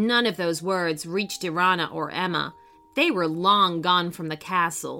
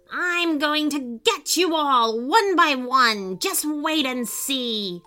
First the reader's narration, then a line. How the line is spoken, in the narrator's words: The evil warlock magician screaming